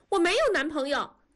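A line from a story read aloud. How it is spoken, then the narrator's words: Shouting. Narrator (Chinese): 多多喊了一声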